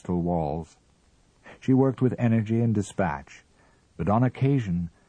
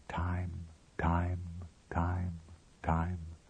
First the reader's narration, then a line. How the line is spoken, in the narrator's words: ever so gently, no more than water tapping on velvet